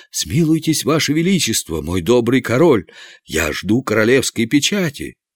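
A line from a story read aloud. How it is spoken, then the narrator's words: Trembling exclamation. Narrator (Russian): Канцлер, дрожа всем телом, воскликнул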